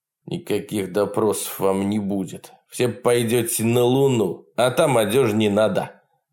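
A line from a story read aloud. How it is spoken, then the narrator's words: Coarse laughter. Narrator (Russian): Партизан грубо захохотал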